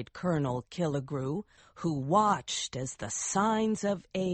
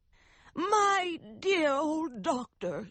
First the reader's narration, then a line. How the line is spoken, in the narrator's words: she cried